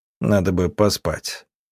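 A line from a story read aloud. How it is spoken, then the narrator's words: Abrupt. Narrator (Russian): Лейгур резко добавил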